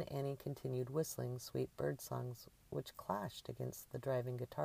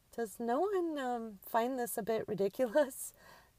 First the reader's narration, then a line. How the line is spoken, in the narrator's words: Drew asked as a hysterical laugh began to form in her belly